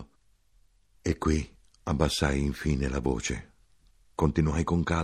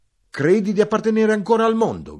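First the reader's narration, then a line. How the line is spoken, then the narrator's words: Shouting. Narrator (Italian): gridai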